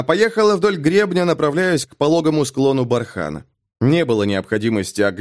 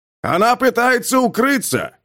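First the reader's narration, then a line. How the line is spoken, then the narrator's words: Father's shout. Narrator (Russian): крикнул отец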